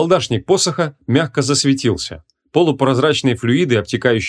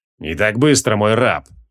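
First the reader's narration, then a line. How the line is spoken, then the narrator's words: Cold reply. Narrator (Russian): холодно ответил креол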